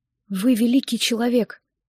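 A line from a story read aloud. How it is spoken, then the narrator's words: Whisper. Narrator (Russian): прошептала я ему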